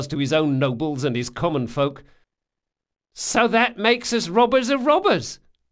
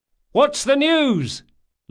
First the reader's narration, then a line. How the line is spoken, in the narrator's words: Locke cried